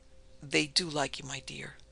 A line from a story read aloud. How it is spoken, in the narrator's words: he said gravely